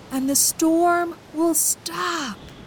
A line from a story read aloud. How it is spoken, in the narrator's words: Jonah cried